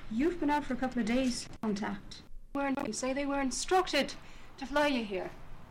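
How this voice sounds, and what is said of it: Unconvincing Irish accent. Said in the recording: “He doesn't. She does. ... Hers is terrible.”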